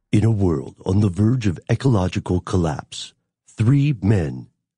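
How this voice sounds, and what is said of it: Dramatic movie trailer narrator voice. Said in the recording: “in a movie trailer voice”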